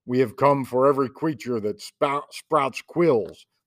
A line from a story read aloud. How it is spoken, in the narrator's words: the terrible things thundered